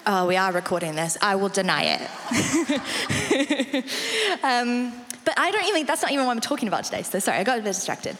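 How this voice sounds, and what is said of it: South African accent with English influence. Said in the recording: “I'm South African, which is why the accent is what it is. My mum is English, so it's not quite South African ... sometimes the vowels come out differently”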